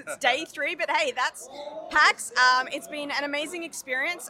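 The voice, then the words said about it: Hoarse, fading voice. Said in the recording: “People will probably be able to hear, I'm losing my voice.”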